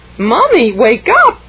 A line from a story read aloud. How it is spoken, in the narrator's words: cried Jared